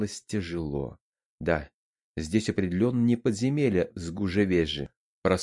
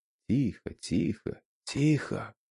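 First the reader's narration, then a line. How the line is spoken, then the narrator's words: Echoing multilingual whispers. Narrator (Russian): Разноязычный шепот прошелестел под сводами подземелья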